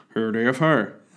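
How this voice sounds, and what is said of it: Imitates another person's voice. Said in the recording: “terrible impression”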